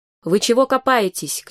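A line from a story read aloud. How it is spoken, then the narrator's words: Mother shouting. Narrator (Russian): кричала мать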